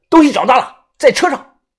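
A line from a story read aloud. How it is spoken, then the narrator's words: Loud. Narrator (Chinese): 一名穿制服的 大声地说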